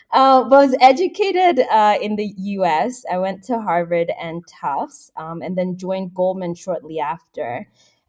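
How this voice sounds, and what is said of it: Somewhat American accent. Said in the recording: “somewhat American accent”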